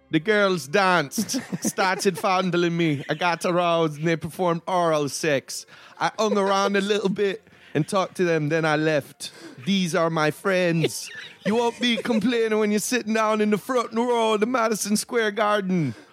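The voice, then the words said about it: Put-on Jamaican accent. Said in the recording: “let's hear it in a Jamaican accent”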